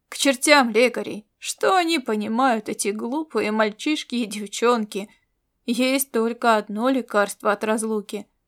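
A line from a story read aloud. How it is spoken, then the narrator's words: Grumbling. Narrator (Russian): ворчал он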